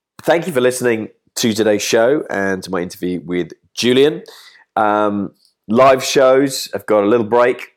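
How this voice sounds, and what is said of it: Voice affected by oncoming cold. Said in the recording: “as you can tell by my voice, possibly battling or staving off ... the onset of a cold”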